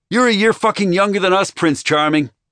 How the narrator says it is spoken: yelled at him nonsensically

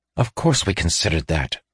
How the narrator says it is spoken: said Weir irritably

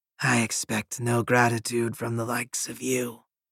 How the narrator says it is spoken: the Sibyl rasped

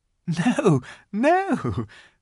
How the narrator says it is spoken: said Lucy, laughing

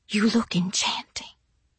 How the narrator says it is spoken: he whispered

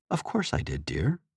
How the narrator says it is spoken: Anorak replied softly

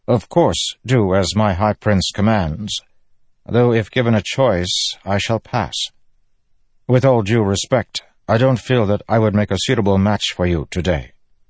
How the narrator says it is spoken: Kelerand said stiffly

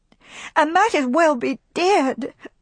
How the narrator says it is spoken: she sobbed passionately

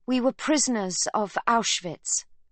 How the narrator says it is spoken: she tells him firmly

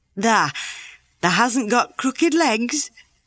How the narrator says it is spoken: quavered Ben more hoarsely yet

